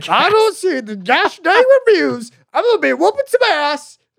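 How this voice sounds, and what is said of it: Impression of a TV sitcom character. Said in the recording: “my impression of what's his face from Always Sunny ... Charlie from Always Sunny”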